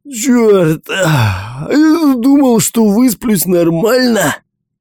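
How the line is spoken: Roaring. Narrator (Russian): взревел Микки

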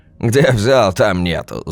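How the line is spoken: Laughing. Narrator (Russian): засмеялся Саша

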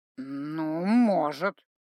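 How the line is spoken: Hesitant drawl, troll. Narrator (Russian): не очень уверенно протянул тролль после минутного размышления

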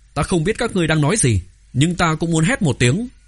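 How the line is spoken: Child shouting. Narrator (Vietnamese): Thiếu nhi Thao Thiết đập bàn, quát

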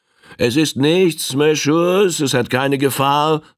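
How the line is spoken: Captain calling out. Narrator (German): rief ihnen der Kapitän zu

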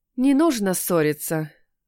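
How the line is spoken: Breathed out. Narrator (Russian): выдохнула я

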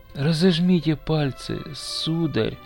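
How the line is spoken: Barely audible boy. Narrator (Russian): еле слышно говорил мальчик

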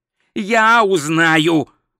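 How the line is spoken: Snapped. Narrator (Russian): огрызнулся Ринсвинд

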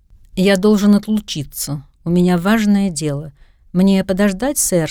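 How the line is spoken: Plain. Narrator (Russian): спросил водитель

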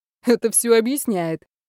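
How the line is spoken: Cheerful reply. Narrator (Russian): весело ответил шеф

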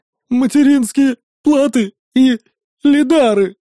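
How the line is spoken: Sobbing reply. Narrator (Russian): всхлипнув, ответил он

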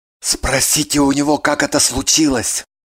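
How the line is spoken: Whisper. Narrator (Russian): шепнул Кириллов

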